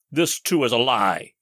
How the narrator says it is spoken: exclaimed

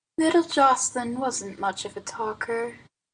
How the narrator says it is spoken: said Aunt Nan dreamily

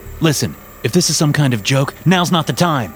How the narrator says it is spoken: I snapped

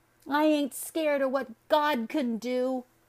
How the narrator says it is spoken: the boy cried behind them

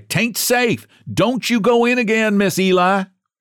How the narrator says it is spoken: cried

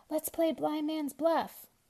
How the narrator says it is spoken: cried Anton

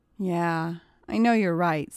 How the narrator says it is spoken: sighed Katie

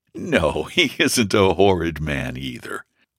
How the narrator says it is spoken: whispered her brother, laughing

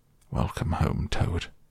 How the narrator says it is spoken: solemnly said

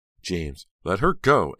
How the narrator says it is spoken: Aunt Belle cried, very alarmed

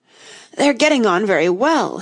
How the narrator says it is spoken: he said in a choking voice

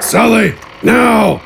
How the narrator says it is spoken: Gafgarn yelled as he ran

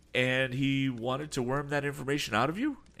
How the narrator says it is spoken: inquired the youth excitedly

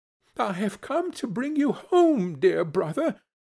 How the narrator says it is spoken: said the child

